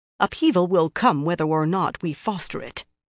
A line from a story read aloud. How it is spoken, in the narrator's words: the other sister said firmly